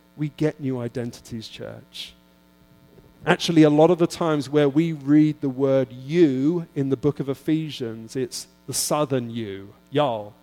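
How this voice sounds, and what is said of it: Non-American accent. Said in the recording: “don't hate on my accent ... I'll try and be American here and there”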